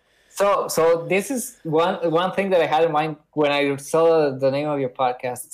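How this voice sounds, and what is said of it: Speaks with a noticeable accent. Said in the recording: “Sorry about my accent.”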